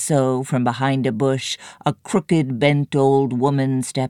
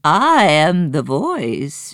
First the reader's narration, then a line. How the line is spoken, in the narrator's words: she croaked